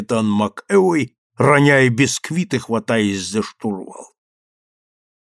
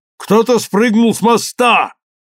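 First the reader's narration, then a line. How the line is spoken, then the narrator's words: Man shouting. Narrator (Russian): человек, высунувшийся из машинного отделения, закричал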